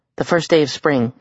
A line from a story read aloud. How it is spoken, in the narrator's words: Sam said